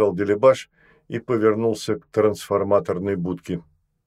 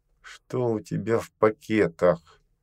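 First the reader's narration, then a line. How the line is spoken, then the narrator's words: Through gritted teeth. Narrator (Russian): сквозь зубы спросила Наста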